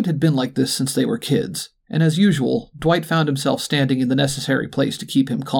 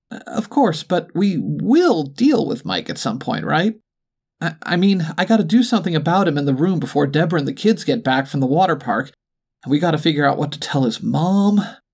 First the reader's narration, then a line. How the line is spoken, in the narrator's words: Lloyd said, nervously